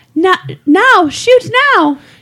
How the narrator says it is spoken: He cried to Hoder

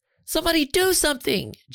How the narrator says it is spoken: Jenny pleaded

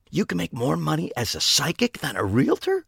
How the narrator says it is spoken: Pete asked, his voice cracking as he attempted to whisper

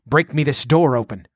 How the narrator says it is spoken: snapped Ascalante

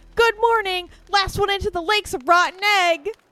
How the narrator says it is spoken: the birthday girl called out

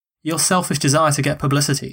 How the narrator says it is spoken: said one senator

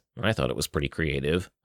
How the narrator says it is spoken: I mumbled

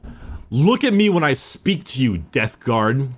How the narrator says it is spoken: snapped the Primarch

